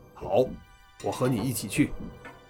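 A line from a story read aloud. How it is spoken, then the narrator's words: Deep low voice. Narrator (Chinese): 他沉声道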